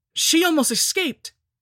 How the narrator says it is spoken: cried Dudley

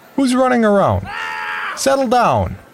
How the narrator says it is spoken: someone hollered

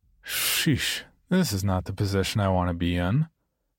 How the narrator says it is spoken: With a sigh that said

